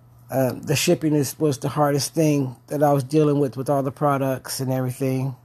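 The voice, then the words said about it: Strong foreign accent. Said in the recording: “my accent was pretty strong, still is pretty strong”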